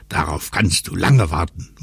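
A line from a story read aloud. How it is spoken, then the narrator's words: Relieved murmur. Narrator (German): murmelte Lotto, weil er wieder festen Boden unter den Füßen hatte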